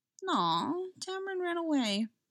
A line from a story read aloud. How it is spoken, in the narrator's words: Leon said sadly